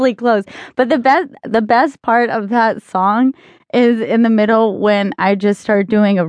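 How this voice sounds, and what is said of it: Usual voice. Nothing is said of it.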